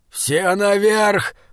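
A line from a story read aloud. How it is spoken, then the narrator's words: Hoarse shout. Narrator (Russian): хрипло крикнул Бокун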